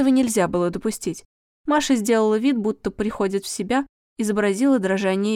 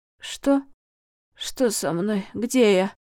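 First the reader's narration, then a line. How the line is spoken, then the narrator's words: Quiet, pained question. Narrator (Russian): тихо болезненным тоном спросила актриса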